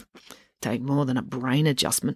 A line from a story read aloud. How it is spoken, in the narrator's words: muttered Selby